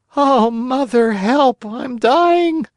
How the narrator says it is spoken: one of the other boys, who, as pale as a ghost, cried out faintly

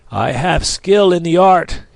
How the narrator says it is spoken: said hoarsely

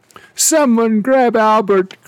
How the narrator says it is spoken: cried the steward

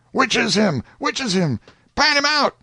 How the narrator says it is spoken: Everybody went shouting

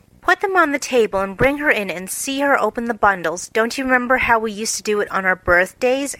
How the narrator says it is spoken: answered Jo

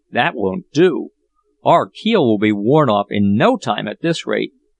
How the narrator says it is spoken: cried Jack on seeing this

